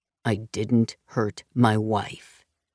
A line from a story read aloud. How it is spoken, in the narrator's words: Ben said firmly